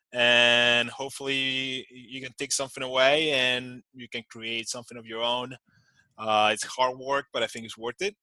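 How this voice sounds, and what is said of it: Speaker's own accent. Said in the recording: “putting up with my accent”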